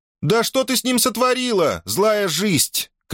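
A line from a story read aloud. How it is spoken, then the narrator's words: Shout. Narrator (Russian): крикнула она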